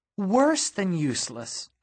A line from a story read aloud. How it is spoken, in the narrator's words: I said, my voice going up and cracking